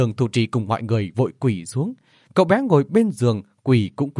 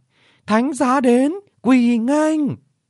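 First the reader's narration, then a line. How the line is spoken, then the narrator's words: Loud ceremonial announcement. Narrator (Vietnamese): Một thái giám lớn tiếng sướng gọi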